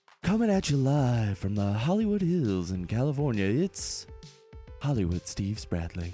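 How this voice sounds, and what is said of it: Deep, smooth radio announcer voice. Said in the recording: “who's that hunky voice ... Oh, listen to that sexy radio voice you got going on.”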